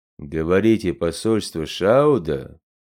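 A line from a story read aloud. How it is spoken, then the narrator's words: Booming bass, big man. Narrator (Russian): Гулким басом прогремел над центром управления голос богатыря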